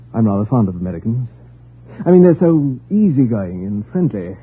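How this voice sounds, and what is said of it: British accent. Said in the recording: “Are you British? ... Your accent.”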